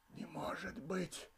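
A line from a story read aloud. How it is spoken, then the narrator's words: Whispered. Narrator (Russian): прошептал Сергей Акакевич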